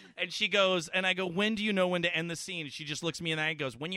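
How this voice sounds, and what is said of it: Usual voice. Nothing is said of it.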